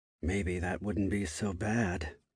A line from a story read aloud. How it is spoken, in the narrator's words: Keenan muttered under his breath